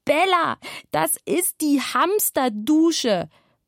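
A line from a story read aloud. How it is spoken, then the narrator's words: Shout. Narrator (German): als er schrie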